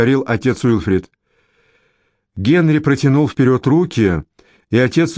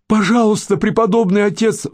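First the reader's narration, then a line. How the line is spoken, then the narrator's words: Pleading. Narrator (Russian): взмолился Генри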